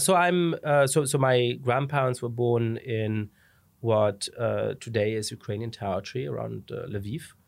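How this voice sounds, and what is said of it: Slight foreign accent. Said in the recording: “you have a bit of an accent.”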